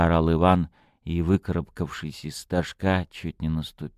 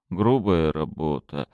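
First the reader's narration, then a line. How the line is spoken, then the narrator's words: Muttering. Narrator (Russian): пробормотал Иван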